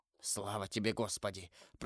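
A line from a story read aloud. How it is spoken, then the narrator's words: Whispered. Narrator (Russian): прошептал он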